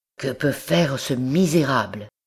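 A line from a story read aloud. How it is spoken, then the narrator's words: Murmured. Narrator (French): murmura-t-il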